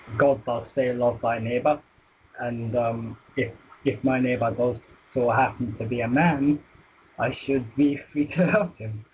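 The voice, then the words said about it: Quiet, fast speech with Scottish accent. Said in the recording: “I'm detecting a Scottish accent by the sounds of it ... speak a little louder and a little bit slower”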